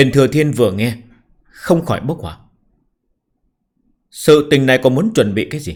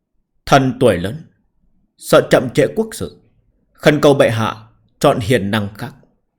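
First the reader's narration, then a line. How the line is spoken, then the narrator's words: Solemn, slow. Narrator (Vietnamese): Sắc mặt của Nam Nhân Ngọc nghiêm nghị, chậm rãi nói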